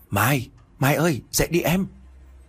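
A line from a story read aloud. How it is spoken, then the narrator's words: Soft murmur. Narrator (Vietnamese): thủ thỉ bên tay của Mai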